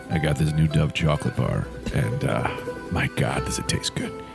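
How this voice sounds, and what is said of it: Exaggerated seductive voice. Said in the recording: “sex voice competition”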